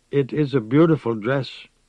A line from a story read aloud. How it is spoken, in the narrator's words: she said in her faint, hoarse voice